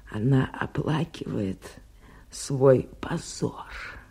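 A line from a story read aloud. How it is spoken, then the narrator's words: Triumphant whisper with silent laugh. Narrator (Russian): Госпожа Луазо беззвучно, но торжествующе засмеялась и прошептала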